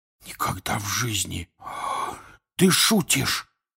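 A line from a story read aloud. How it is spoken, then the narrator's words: Whisper. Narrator (Russian): прошептал Рон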